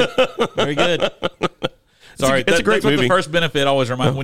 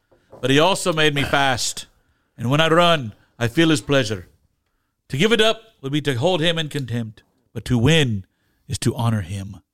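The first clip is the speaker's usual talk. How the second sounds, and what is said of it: Put-on Scottish accent. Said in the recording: “That's a really good Australian accent. ... Australian. Not Australian. ... Scottish? Irish? ... Scottish.”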